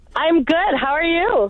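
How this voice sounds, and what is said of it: Cheerful, happy-sounding voice. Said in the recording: “do you sound so happy?”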